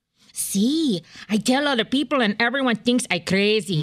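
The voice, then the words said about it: Put-on Spanish accent. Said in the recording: “can you do a Spanish accent?”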